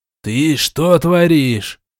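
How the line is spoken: Roaring. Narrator (Russian): проревел он в лицо Сиви

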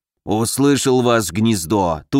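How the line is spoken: Hoarse rasping amulet. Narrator (Russian): прохрипел амулет

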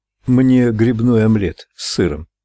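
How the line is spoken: Plain. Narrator (Russian): сказал Ральф

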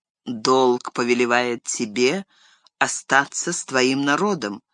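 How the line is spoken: Plain. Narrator (Russian): ответил он

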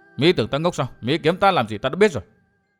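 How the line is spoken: Muttering. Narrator (Vietnamese): Nàng lại lẩm bẩm

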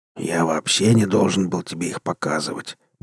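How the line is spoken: Grumbling. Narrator (Russian): буркнул Рур

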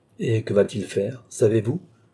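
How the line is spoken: Plain. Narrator (French): demanda Richelieu

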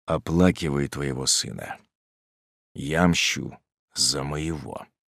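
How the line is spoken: Dull hollow voice. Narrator (Russian): глухим голосом он продолжал

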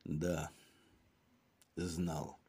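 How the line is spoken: Hoarse reply. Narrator (Russian): ответил комиссар хриплым голосом

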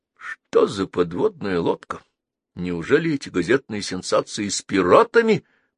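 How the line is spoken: Muttering. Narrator (Russian): пробормотал Шлиердовейко

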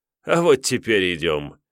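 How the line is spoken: Laughing. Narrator (Russian): рассмеялся жрец

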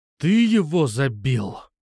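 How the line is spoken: Growl. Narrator (Russian): прорычал я

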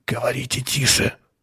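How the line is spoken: Hoarse whisper. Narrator (Russian): хрипло прошептал Атон

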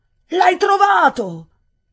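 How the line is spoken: Incredulous exclamation. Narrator (Italian): esclamò quasi incredulo

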